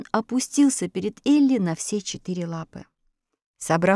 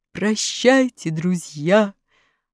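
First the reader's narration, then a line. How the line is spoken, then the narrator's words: Roaring lion. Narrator (Russian): проревел лев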